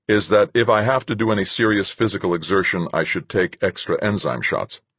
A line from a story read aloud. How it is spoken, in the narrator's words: said sharply